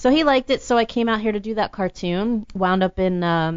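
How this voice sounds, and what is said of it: Usual voice. Nothing is said of it.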